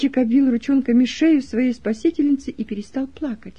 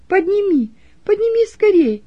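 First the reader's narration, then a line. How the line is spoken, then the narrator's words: Shout. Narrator (Russian): крикнула Роза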